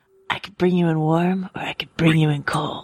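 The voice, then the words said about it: Pedro Pascal via Clint Eastwood impression. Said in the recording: “Look at you breaking out the impressions. That's very good. ... A very nice Pedro Pascal by way of Clint Eastwood. ... My Pedro Clint impression.”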